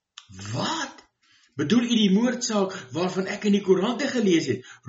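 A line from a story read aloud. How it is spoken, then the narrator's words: Excited exclamation. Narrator (Afrikaans): roep die vrou opgewonde uit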